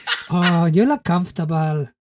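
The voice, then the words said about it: Put-on Spanish accent. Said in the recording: “I'm giving him a Spanish accent”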